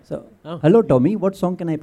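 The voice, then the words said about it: Put-on Indian accent. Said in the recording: “you can change that accent. So you can have ... an Indian accent on it. ... Why are you wobbling your head?”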